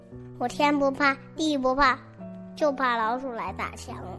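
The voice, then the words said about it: Quiet, softly spoken line. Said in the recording (Chinese): “墙小声地说。”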